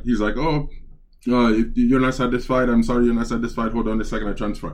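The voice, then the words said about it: Put-on Indian English accent. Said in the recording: “Dude had an Indian accent.”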